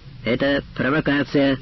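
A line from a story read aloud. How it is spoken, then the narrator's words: Loud. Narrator (Russian): громко сказала татарка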